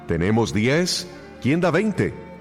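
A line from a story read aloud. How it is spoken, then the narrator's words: Auctioneer shouting. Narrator (Spanish): gritó el subastador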